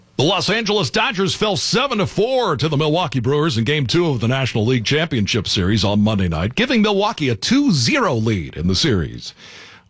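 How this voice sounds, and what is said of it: Sports broadcast announcer voice. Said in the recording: “hired to be either a broadcast announcer for football or baseball ... in my classic audition voice”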